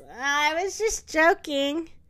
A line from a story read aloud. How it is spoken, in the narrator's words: Lionel laughs and says